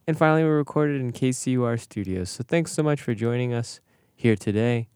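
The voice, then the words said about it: Polished radio announcer voice. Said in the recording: “That was radio voice. I loved it.”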